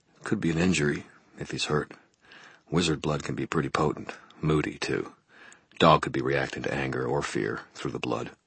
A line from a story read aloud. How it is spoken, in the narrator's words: He murmured